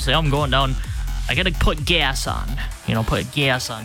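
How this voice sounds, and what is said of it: Midwestern accent. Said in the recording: “Midwestern accent”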